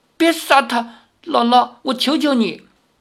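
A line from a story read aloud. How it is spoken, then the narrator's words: Trembling plea. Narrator (Chinese): 赵灵儿 … 颤声道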